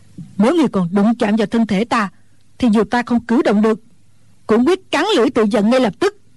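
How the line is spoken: Angry old woman. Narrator (Vietnamese): Mụ già tức giận nói

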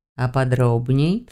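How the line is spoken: Silky insinuating purr. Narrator (Russian): вкрадчиво мурлыкнул мой спутник

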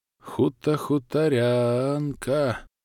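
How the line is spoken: Thoughtful drawl. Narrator (Russian): Задумчиво протянул я

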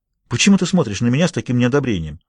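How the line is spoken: Sharp question. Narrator (Russian): София резко спросила

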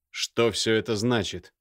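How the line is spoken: Very rude question. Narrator (Russian): весьма грубо спросил Михаил

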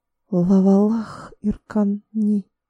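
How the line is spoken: Whisper in ancient language. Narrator (Russian): прошептала Тайра на древне Аханском, воздавая молитву единому всемогущему Богу

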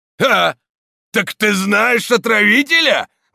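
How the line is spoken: Exclamation. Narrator (Russian): воскликнул камнелом

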